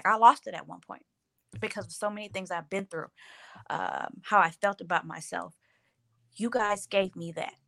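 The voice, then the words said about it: Teary, emotional voice. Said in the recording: “getting teary-eyed.”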